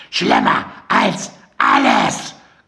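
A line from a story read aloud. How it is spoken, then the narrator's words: Shrieking again. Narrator (German): kreischte Mandy noch einmal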